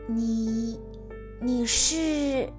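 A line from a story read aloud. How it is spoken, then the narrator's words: Low question. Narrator (Chinese): 戴拿低声问道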